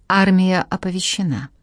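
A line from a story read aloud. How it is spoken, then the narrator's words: Husky bass. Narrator (Russian): ответил Селим хрипловатым басом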